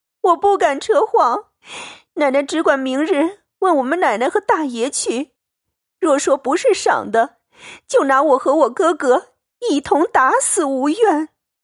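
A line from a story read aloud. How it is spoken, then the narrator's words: Crying plea. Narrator (Chinese): 入花跪着哭道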